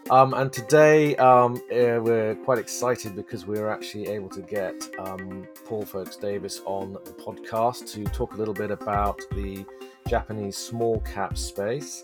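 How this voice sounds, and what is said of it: Slightly croaky voice. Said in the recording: “my voice sounds a little bit croaky, but the hay fever season is in full swing”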